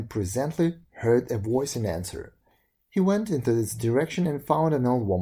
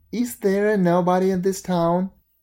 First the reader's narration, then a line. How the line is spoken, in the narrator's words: He called out